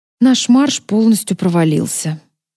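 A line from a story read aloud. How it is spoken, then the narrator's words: Sigh. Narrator (Russian): вздохнула я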